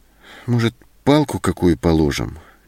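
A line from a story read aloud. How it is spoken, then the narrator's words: Uncertain suggestion. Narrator (Russian): неуверенно предложила Зоська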